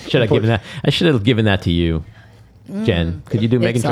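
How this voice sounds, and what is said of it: Usual voice. Nothing is said of it.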